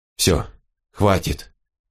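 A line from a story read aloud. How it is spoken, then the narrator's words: Quiet. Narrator (Russian): тихо проговорил Тилорн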